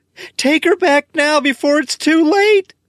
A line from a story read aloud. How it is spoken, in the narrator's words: Helen screams